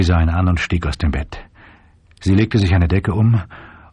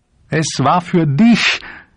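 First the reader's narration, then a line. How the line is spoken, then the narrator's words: Sobbing. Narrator (German): schluchzte Shep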